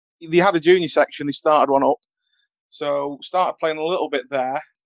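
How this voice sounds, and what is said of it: Broad old-fashioned Northern English accent. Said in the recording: “my ridiculous 1950s Northerner accent”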